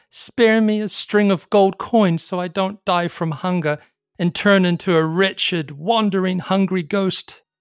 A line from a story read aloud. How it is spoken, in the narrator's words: begged